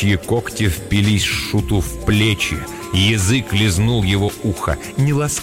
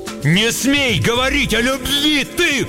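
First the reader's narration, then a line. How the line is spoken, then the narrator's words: Jester shouting. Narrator (Russian): крикнул Шут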